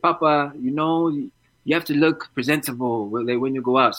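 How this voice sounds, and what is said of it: Put-on African accent. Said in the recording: “She's African. That's why I'm doing that voice.”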